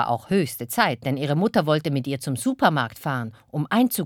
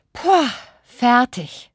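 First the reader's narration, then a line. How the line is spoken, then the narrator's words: Groaning. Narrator (German): stöhnte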